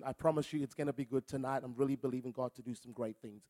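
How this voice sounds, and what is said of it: Speaks with a noticeable accent. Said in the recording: “every now and again I can go a little bit ocker, but not really ... So forgive the accent.”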